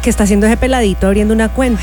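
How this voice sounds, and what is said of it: Put-on Colombian Spanish accent. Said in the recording (Spanish): “Es un acento colombiano.”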